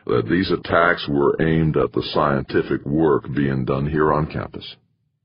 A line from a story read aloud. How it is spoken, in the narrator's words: Halverson said slowly